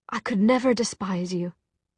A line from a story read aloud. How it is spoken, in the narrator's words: she said